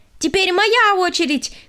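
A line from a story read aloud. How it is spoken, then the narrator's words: Shouting. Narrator (Russian): крикнула она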